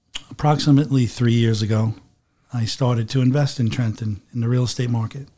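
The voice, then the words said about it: Slight regional accent. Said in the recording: “He still has that accent ... he still has it ... A little bit.”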